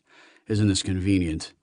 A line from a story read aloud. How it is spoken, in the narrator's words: Heffer muttered